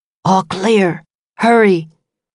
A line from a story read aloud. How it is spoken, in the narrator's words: The milkman whispered